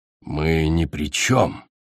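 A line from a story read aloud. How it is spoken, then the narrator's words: Mumbled. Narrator (Russian): пробормотал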